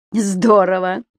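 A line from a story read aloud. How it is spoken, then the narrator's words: Laughing. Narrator (Russian): рассмеялась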